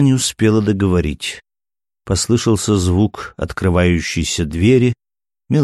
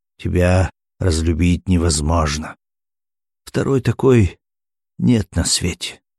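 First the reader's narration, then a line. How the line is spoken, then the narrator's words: Bitter irony. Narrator (Russian): горько сиронизировал Смирнов, прошептал на ухо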